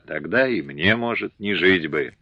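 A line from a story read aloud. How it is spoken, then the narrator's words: Quiet reply. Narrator (Russian): Ефимия тихо ответила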